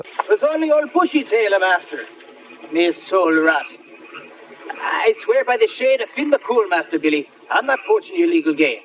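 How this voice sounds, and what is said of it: Very bad fake Irish accent. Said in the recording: “the worst Irish accent you've ever heard in your life ... Worst Irish accent”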